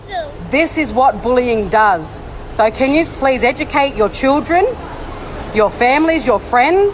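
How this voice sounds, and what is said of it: Thick Australian accent. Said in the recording (French): “les Australiens ont un accent coupé au couteau”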